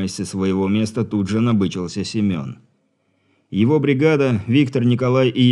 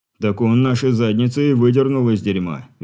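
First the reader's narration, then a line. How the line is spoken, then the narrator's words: Cheerful chuckle. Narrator (Russian): весело хохотнул Квакин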